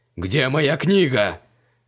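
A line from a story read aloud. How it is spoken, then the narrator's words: Furious roar. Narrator (Russian): бешено взревел он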